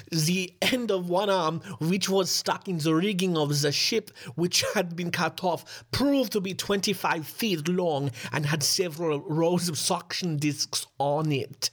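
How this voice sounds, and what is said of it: Put-on German accent. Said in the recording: “my amazing German accent”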